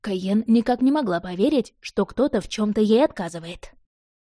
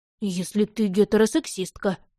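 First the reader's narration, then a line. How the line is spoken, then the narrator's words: Gentle speech. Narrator (Russian): мягко сказал Бен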